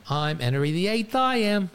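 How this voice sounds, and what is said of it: Sung in a put-on British accent. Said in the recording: “I don't know why I sang it with a British accent”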